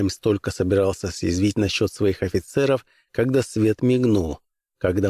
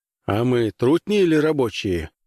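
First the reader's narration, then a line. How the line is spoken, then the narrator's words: Laughing. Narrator (Russian): Спуки Дин рассмеялся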